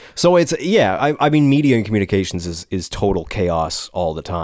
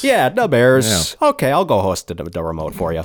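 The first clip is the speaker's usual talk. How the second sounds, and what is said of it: Put-on Chicago-style accent. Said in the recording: “I don't even know what that accent is. It's slightly Canadian. ... That's Chicago.”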